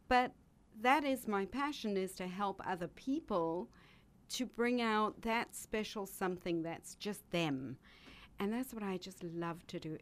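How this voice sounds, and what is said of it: Beautiful foreign accent. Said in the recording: “such a beautiful accent ... this gorgeous accent”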